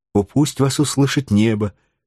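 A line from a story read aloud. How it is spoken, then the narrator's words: Plain. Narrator (Russian): ответила девушка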